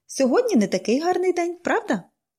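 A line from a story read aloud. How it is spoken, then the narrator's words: Cheerful question. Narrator (Ukrainian): весело запитала вона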